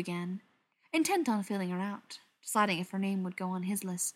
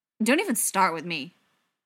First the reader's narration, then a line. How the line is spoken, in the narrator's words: the girl snapped